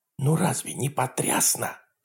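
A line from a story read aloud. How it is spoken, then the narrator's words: Quiet. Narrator (Russian): тихо сказала Нора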